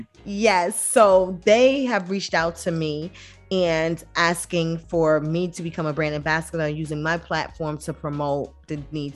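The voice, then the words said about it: Speaks with a foreign accent. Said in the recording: “you know my accent.”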